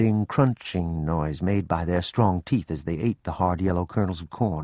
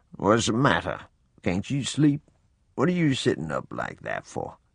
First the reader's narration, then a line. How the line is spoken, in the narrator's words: In a sleepy voice, he asked